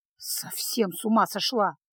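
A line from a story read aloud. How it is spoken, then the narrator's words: Muttered grumble. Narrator (Russian): буркнул маг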